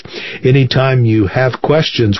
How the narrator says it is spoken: Weiss said

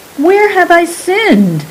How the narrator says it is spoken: cried Saran

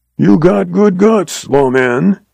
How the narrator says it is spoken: he rasped

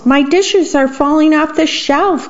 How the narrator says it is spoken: cried the worm

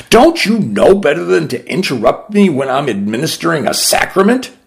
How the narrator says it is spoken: I snapped

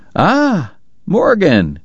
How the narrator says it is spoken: Doc cried genially

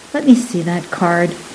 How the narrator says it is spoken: he interrupted softly

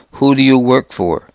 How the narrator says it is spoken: the interrogator asked calmly in a thick Arab accent

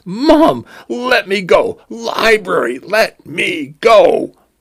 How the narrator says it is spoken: cried

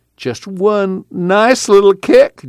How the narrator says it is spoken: Jewel pleaded

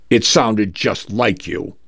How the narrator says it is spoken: Teresha says

